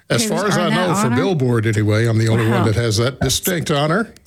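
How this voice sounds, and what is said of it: Polished broadcaster's radio voice. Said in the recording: “as people can probably tell, you have a definite radio voice”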